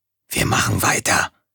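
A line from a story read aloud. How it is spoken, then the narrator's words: Whispered. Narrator (German): flüsterte er Tom-Tom zu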